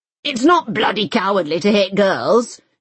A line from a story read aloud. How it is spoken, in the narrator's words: she had roared at the headmaster